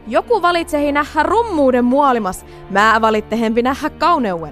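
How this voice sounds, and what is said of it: Put-on broad rural Finnish dialect. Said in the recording (Finnish): “puhuu tämmöistä juurevaa southern accenttia ... voit pudottaa murteen pois ... mutta se murreveks”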